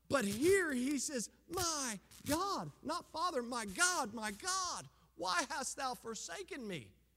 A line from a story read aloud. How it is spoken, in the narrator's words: He screams out in terror